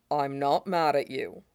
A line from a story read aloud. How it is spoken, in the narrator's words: he says